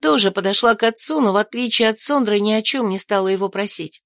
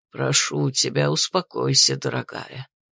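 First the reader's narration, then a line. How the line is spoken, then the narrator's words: Mumble, father. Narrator (Russian): пробормотал, обращаясь к Сондре отец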